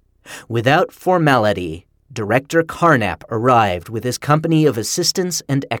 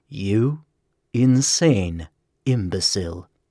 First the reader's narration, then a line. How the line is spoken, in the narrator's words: Carnap rumbled